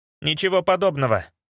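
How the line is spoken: Hurried. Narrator (Russian): торопливо сказал Мантрот

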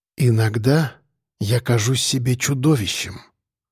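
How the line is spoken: Quiet. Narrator (Russian): тихо проговорила Женя

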